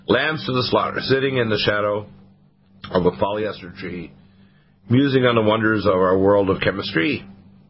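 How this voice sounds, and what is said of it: Scratchy, hoarse voice. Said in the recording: “I have a bit of a scratchy voice ... A little hoarse there. ... I am a little hoarse.”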